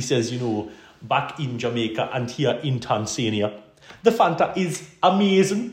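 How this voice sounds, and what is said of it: Usual voice. Nothing is said of it.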